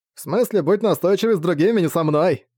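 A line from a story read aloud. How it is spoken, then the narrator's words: Chuckling. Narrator (Russian): хохотнул Наим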